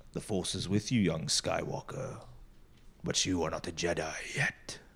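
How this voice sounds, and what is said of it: Poor Darth Vader voice impression. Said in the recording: “terrible Vader impression”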